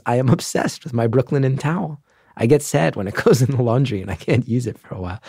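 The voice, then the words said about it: Giggling while speaking. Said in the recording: “You can hear it in my voice. ... I'm giggling”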